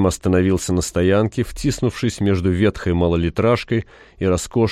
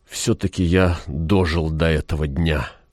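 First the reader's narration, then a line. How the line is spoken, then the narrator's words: Muttered. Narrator (Russian): пробормотал он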